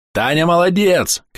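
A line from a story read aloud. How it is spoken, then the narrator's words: Shouted. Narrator (Russian): крикнул киллер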